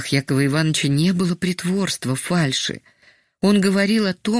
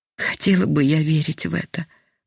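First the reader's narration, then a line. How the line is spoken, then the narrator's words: Sighing, sick woman. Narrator (Russian): вздохнула больная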